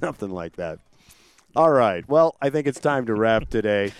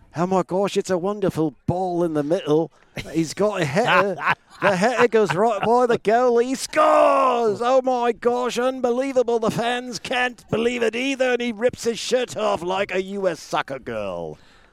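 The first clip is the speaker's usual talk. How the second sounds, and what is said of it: Put-on English accent. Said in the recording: “do we have to do it in English accents, too?”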